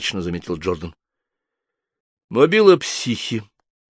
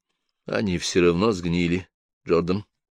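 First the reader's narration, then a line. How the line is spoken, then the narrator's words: Gentle remark. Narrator (Russian): мягко заметил Том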